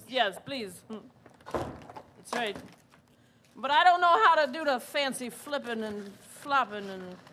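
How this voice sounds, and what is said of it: Suddenly speaks in a different accent. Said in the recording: “You suddenly have a very different accent. ... I've been trying to new things out.”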